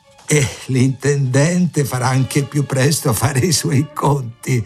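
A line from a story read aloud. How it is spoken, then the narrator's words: Laughing. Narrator (Italian): aggiunse un quarto ridendo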